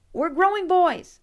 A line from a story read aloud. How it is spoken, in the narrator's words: I blurted out